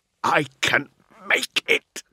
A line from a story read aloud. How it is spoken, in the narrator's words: Navarre snarled